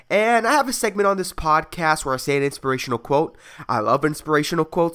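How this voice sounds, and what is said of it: Sick, rough-sounding voice. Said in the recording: “my voice sounds fucked up ... I'm a little sick ... coughing and sneezing”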